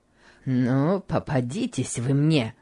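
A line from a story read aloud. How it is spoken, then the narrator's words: Muttered through teeth. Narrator (Russian): бормотал Гейли сквозь зубы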